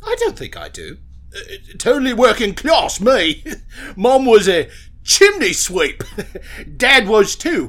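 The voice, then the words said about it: Posh upper-class English accent. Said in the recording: “why does your voice sound so fancy? ... Posh. You know, like rich people.”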